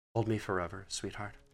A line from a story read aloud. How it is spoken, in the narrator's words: her breath warm against my neck, she murmurs